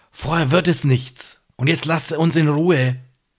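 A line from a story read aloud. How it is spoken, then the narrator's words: Whispered. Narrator (German): flüstert er ihm zu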